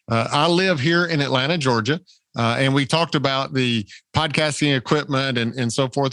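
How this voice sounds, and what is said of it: Southern American accent. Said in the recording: “I'm confident it does not hide the Southern accent.”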